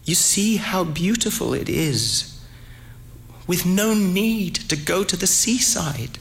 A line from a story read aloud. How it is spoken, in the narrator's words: In a trembling voice, said